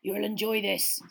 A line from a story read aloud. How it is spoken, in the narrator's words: said Hagrid gruffly